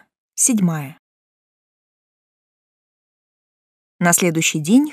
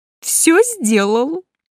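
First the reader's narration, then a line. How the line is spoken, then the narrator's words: Joyful. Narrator (Russian): радостно поделился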